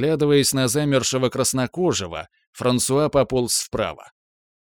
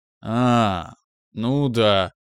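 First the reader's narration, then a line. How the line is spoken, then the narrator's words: Mumbling. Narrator (Russian): замямлил я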